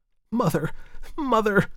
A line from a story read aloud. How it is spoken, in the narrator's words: she exclaimed